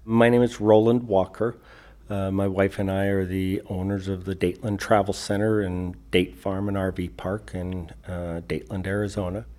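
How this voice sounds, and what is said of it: Non-Arizona accent. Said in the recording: “a non-Arizona accent”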